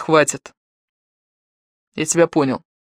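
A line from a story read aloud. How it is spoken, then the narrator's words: Icy voice. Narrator (Russian): Ледяным голосом он произнес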